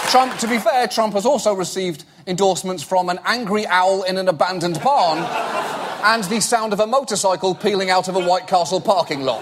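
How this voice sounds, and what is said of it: Speaks with a non-American accent. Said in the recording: “because of my accent, the only elected officials I can endorse our prime ministers, viceroys, and magical railway controllers”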